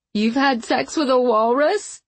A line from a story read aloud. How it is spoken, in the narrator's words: Ricky had asked, and they all died laughing, stoned out of their minds